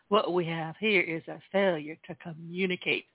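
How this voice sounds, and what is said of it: Put-on Southern accent. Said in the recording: “as Cool Hand Luke once said ... I'm going to try to do this in a Southern accent”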